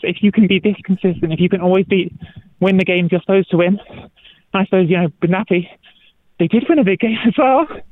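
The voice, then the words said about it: Out of breath, panting speech. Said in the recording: “I'm a bit out of breath because I'm running... It's like interviewing someone on a treadmill”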